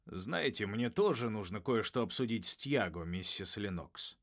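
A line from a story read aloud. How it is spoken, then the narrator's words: Gloomy. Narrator (Russian): мрачно проговорил учитель превращений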